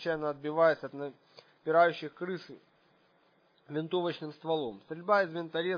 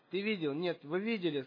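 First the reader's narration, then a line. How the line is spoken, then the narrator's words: Shouting. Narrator (Russian): скричала Ника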